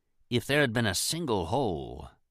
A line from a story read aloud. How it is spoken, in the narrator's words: Baines murmured